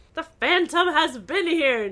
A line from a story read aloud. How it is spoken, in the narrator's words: Nancy exclaimed